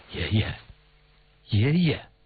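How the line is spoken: Quiet calling. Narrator (Chinese): 瑞轩低声叫着

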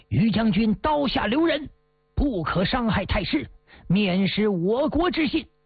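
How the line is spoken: Shouting. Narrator (Chinese): 徐达喊道

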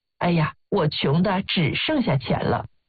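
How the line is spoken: Bored, empty sigh. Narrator (Chinese): 一个富翁可能无聊空虚地感叹

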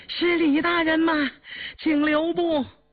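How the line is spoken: Breathless shout while running. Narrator (Chinese): 喘吁吁跑过来一个中年太监，一头跑一头喊

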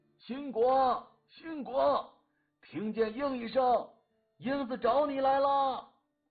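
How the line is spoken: Full-throated shout. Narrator (Chinese): 放开喉咙喊道

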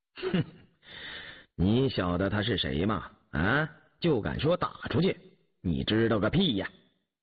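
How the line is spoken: Laughing. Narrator (Chinese): 口中笑道

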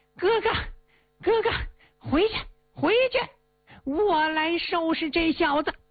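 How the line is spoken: Shouting while running. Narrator (Chinese): 他一边跑一边喊呐

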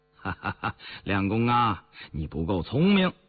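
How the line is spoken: Smiling. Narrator (Chinese): 雍正含笑说话

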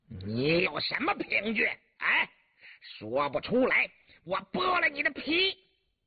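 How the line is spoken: Vicious question. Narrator (Chinese): 黄伦恶狠狠地问道

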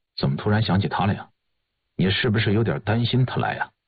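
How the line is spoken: Cold. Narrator (Chinese): 易君年冷冷地说

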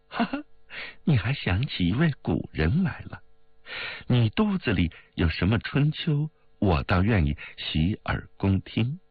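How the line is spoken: With a laugh. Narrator (Chinese): 冰如笑了一声道

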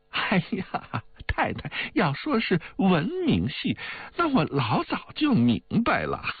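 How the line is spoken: Hearty laughter. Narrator (Chinese): 王妈哈哈的笑道

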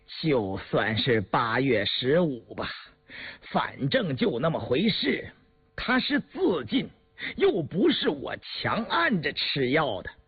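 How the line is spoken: Forced calm, tense. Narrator (Chinese): 程森 浑身激起了一个寒颤 咬了咬牙，强自镇定地说

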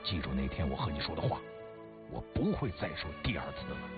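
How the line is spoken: Low voice. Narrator (Chinese): 狗竟一低声说

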